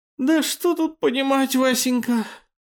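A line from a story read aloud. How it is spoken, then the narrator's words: Sleepy, maid. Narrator (Russian): сонно проговорила горничная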